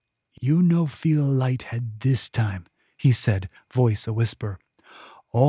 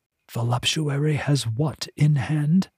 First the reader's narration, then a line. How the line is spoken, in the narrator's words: Gulsoy whispered